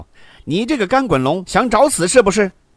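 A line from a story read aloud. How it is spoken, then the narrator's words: Loud angry cursing. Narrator (Chinese): 嘴里大声的骂道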